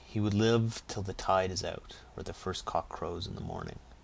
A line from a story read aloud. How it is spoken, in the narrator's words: said Katy solemnly